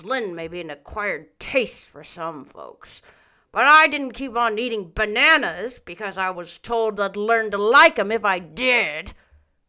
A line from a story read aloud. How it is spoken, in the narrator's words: growled Mr